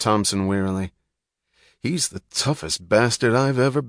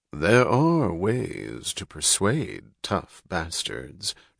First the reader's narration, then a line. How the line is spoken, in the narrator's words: drawled Dr